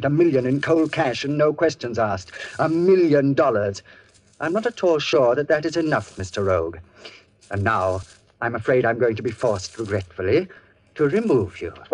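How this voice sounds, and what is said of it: Cultured, icy-cold villain voice. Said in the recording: “he was talking in that cultured iceberg voice.”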